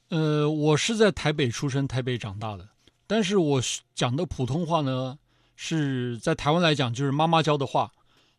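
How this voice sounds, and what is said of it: Standard Mandarin with northern accent. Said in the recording (Chinese): “就非常标准的普通话，而且是带有北方口音的那一种”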